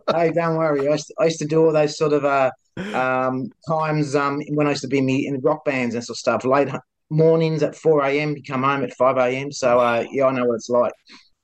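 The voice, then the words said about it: Australian accent. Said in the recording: “your accent's amazing. I love the Australian accent.”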